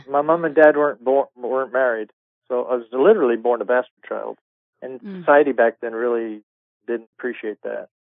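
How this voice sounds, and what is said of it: Slight Scottish accent. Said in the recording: “I come from Edinburgh, Scotland... that's where I hear that little accent.”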